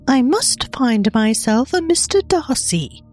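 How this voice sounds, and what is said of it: Attempted British accent. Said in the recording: “in her best attempt at a British accent”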